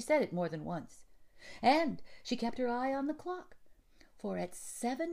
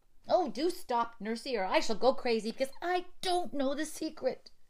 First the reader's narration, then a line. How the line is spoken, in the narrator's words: cried Effie